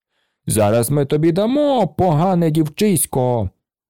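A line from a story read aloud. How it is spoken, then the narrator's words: Policemen shouting. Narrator (Ukrainian): поліцаї закричали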